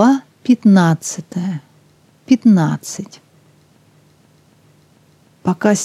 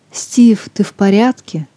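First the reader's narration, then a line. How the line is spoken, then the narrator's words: Worried question. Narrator (Russian): взволнованно спросила девушка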